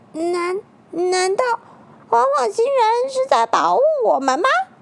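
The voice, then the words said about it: Quiet, small voice. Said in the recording (Chinese): “有一个人很小声的说”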